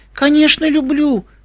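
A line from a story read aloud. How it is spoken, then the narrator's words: Exclaiming. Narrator (Russian): воскликнул он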